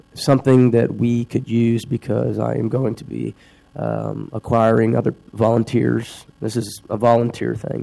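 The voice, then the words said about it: Congested voice from a cold. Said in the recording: “you could probably hear in my voice, I'm kind of dealing with something, a little bit of a cold.”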